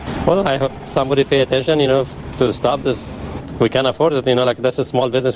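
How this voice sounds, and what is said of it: South Asian accented English. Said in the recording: “obvious accent right there, appears to be of Indian or Pakistani descent or some kind of South Asian descent”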